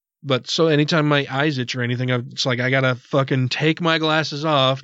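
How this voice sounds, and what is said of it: Congested, stuffy voice. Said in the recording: “You can probably tell I sound a little congested because it's lots of pollen in the air.”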